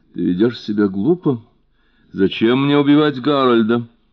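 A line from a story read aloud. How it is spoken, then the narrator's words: Laughing. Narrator (Russian): Дотти рассмеялась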